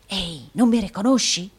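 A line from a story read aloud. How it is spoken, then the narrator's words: Whispered. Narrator (Italian): bisbigliò il provinciale del Yorkshire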